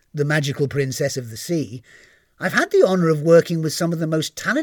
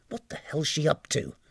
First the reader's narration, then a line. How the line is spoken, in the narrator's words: muttered the captain